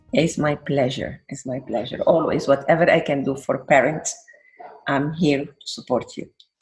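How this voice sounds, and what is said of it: Mixed Venezuelan and Middle Eastern accent. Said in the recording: “phenomenal accent ... I have a mix. I'm Venezuelan. But before being Venezuelan, I was from Middle East.”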